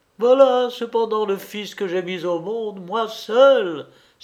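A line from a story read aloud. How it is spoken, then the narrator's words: Triumphant woman's exclamation. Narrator (French): s'écria Bibi Djanem d'un air de triomphe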